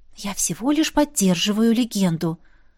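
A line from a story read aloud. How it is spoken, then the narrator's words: Relieved exhale. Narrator (Russian): выдохнула облегченно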